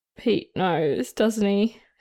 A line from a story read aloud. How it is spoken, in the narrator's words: Steed said sadly, feeling his face turn even redder